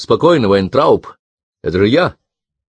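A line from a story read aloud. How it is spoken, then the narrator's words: Shouted. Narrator (Russian): крикнул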